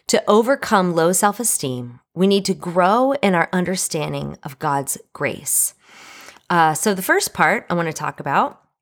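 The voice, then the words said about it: Scratchy voice. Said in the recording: “as you can hear, my voice is a little scratchy”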